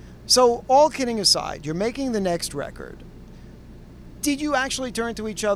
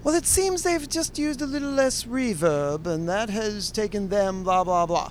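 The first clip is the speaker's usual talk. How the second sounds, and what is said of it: Mock music-critic reviewer voice. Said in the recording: “I'm again doing a different voice. I'm doing the Pitchfork reviewer voice”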